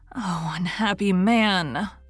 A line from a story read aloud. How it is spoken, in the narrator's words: moaned the girl, showing every sign of unspeakable terror